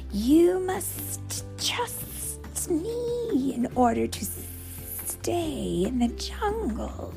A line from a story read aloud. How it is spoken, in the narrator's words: hissed the snake